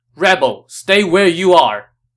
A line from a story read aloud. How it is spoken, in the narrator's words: Hua Xiong shouted